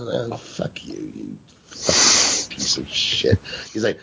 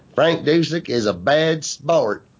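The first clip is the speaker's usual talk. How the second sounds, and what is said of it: Whiny nasal high-pitched southern voice. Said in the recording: “in his whiny, nasally, high-pitched southern accent voice”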